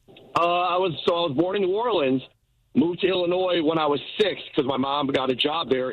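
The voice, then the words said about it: Noticeable regional accent. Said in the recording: “I'm listening to your accent.”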